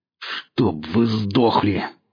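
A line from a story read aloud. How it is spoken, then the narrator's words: Hoarse, through clenched teeth. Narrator (Russian): хрипел сталкер сквозь сжатые зубы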